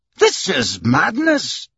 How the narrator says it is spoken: exclaimed Andrew Stewart, who was beginning to get annoyed at his partner's persistence

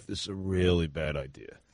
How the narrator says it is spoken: he said under his breath

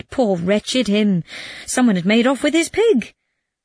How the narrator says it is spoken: cried

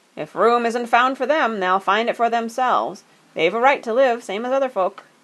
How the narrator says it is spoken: he said loudly

